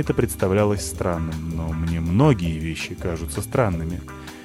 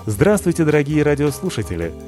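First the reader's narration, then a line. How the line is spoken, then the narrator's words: Cheerful, into microphone. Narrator (Russian): весело сказал Гасионов в микрофон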